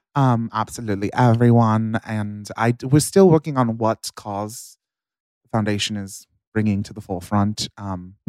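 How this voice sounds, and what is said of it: Sudden put-on accent. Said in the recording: “Why do you now have an accent?”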